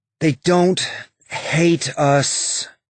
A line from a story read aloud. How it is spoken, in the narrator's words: Bobby said, her voice tired